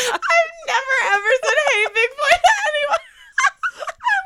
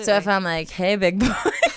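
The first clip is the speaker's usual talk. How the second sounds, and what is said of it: Voice dropped much lower, flirty. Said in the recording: “your voice went down like a complete octave”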